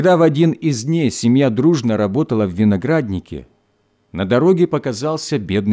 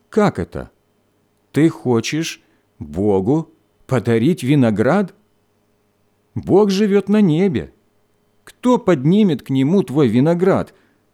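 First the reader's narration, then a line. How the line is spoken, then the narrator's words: Plain. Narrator (Russian): спросил он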